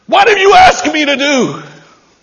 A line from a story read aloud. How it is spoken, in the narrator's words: she screams